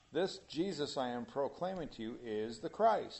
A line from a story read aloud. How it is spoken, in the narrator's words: he said